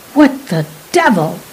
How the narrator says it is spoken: he snapped involuntarily

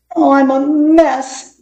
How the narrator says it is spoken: moaned

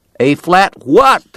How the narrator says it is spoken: the cowboy shouted back

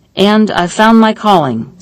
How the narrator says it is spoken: said Steinitz

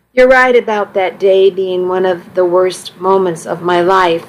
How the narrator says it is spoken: I said

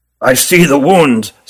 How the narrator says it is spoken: said Ruggum gravely

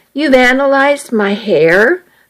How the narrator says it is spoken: asked

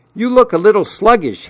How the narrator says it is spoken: he yelled

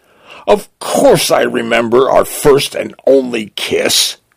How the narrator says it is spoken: blurts, blushing

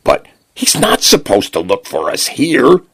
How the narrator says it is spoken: Jackson exclaimed

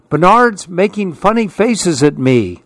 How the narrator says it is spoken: screamed his brother

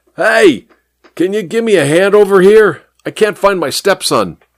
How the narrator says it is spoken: yelled at the traffic cop

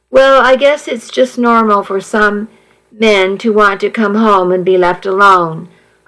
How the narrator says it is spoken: I sighed

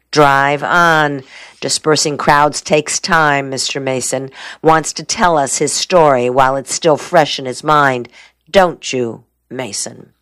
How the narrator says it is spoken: The lawyer laughed

